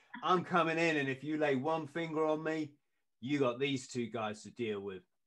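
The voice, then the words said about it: Poor put-on New Zealand accent. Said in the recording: “it was a, a Kiwi. Sorry, I'm trying to do the crap accent”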